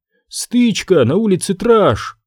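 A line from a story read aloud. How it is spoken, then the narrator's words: Exclaiming. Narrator (Russian): воскликнула она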